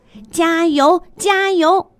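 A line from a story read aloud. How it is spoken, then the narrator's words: Energetic shouting. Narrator (Chinese): 旁观的杜小果喊得比沈老师还要卖劲儿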